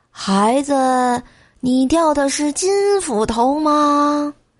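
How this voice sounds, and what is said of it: Aged, old man's voice. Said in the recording (Chinese): “苍老的声音”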